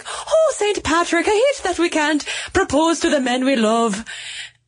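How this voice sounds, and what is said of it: Put-on Irish accent. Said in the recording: “Are you going to do an Irish accent for this? ... You can't do an Irish accent, can you?”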